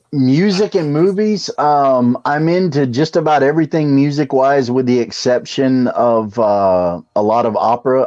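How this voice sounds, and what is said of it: Speaks with a slight drawl. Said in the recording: “if you can't tell from the way I talk and that little drawl”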